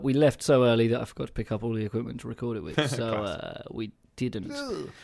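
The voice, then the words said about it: Suffolk English accent. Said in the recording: “they can't understand our accents because we're so Suffolk ... how Suffolk we were ... we definitely have an accent.”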